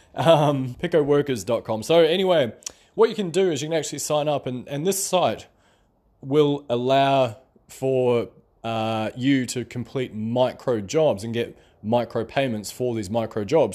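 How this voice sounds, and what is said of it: Speaks with a noticeable accent. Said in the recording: “Hopefully, you guys can understand my accent for those of my friends in the uh, other parts of the world.”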